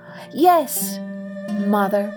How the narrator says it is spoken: cried the boy

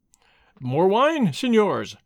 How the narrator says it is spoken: exclaimed in a loud voice

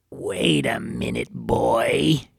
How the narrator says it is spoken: growled

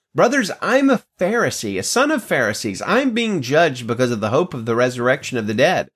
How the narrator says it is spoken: he cried out in the Sanhedrin

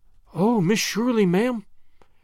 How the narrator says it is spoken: gasped Charlotta

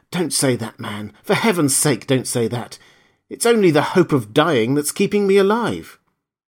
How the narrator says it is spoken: The afflicted gentleman lifted his greenish, tortured face to his comforter and gasped in hoarse accents

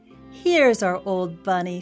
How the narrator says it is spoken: she said

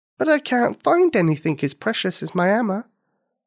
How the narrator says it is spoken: Nikini said sadly

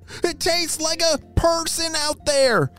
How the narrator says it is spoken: shouted Ralph

